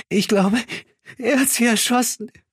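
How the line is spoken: Gasping. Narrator (German): keuchte

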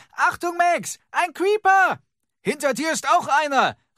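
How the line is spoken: Called out. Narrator (German): rief Henry

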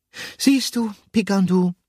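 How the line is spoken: Sleepy call. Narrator (German): rief Gruyère schläfrig

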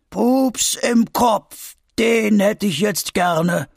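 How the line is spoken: Gnarled distant call. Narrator (German): ruft Opa Vulko mit knorriger Stimme vom Fuß des Vulkans

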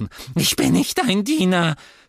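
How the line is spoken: Squeaky. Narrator (German): quiekte er

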